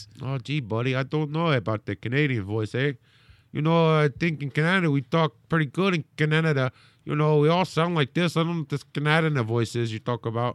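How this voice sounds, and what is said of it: Exaggerated Canadian accent. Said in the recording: “Do the Canadian voice.”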